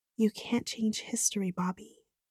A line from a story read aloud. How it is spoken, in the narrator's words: I whispered